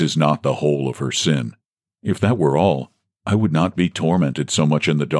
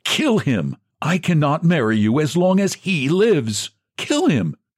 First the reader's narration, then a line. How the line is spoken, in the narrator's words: she cried many times, as if she had gone crazy